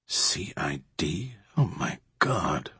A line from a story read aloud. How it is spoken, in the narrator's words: mumbled Morris